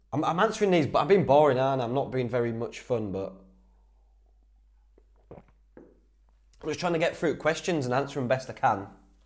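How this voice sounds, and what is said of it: North East English accent, slight Geordie twang. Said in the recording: “I'm from the North East anyway. I'm from Whitby, so we pick up a bit of that Geordie twang. It's like a mixture of Yorkshire and all sorts of stuff”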